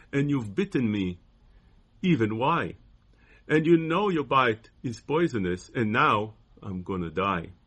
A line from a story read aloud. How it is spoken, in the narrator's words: cried the woman